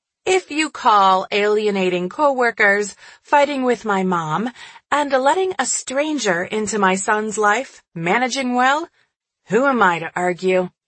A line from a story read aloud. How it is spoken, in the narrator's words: She laughed